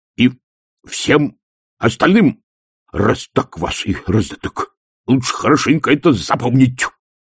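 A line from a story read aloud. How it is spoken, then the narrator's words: Barking. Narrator (Russian): рявкнул Колон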